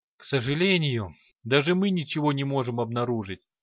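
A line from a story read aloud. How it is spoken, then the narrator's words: Sighing. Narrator (Russian): вздохнул Барт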